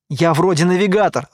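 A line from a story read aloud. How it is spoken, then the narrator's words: Laughing. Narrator (Russian): рассмеялся я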